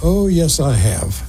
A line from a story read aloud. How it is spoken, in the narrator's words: He said dryly